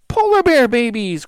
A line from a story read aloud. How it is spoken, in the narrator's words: cried Annie